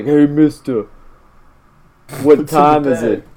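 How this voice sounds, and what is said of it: Put-on New York accent. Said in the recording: “random New Yorker ... he sounds New York ... I can't do an Irish accent”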